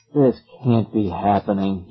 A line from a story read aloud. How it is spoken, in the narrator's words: he muttered